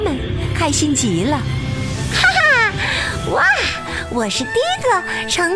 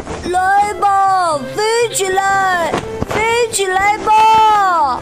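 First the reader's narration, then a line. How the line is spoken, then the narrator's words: Speaking a non-Persian language. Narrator (Chinese): 他说的不是波斯语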